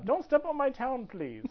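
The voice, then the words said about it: Poorly done put-on accent. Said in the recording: “I'm wrong accent there, but as you know, I don't do very well with accents. ... I am not very good at the accents.”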